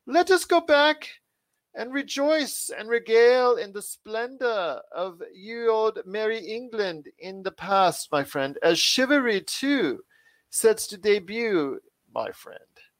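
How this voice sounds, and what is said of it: Exaggerated old-English accent. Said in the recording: “the world's worst English accent that I did, ye old Merry English accent”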